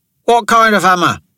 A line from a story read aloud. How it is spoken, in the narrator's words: called out